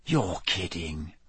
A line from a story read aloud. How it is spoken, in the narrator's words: Ron whispered